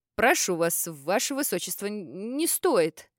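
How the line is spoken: Stammering mutter, merchant. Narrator (Russian): Запинаясь, бормотал торговец

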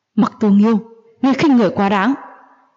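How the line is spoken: Loud shout. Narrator (Vietnamese): Hách Như Trơn lớn tiếng quát

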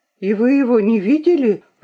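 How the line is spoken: Agitated question. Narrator (Russian): взволнованно спросила Луиза

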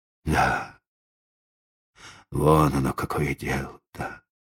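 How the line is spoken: Old man, dejected voice. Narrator (Russian): произнес старик упавшим голосом

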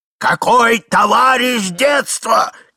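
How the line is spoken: Old man shouting angrily. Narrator (Russian): кричал старик, топая ногами

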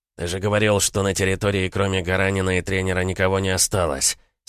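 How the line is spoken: Through gritted teeth. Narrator (Russian): сквозь зубы процедил один из них

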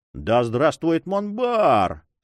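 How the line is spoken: Rapturous crowd roar. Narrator (Russian): с восторгом взревели флебустьеры

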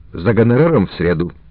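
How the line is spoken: Icy, disguised voice. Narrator (Russian): произнес ледяным тоном, меняя голос

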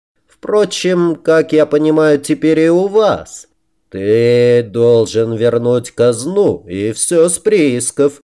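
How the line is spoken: Deep bass, mouth full. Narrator (Russian): пробасил здоровяк, уплетая еду со своей тарелки

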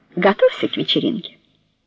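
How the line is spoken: Jokingly and gently. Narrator (Russian): Шутливо и вместе с тем мягко сказала Норио

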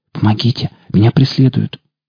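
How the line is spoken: Whisper. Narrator (Russian): Диана прошептала

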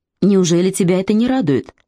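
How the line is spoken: Almost cheerful question. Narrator (Russian): Почти весело спросил Маунг Сейн

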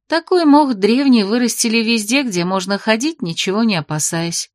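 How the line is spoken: Calm statement. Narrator (Russian): спокойно сообщила Терлина

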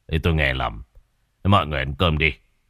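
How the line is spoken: Mutter. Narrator (Vietnamese): ông Đức chỉ lẩm bẩm

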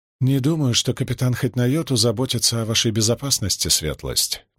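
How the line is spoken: Soft male voice. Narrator (Russian): мягко сказал он

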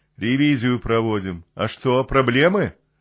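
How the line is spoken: Short laugh. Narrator (Russian): Второй чертило коротко хохотнул

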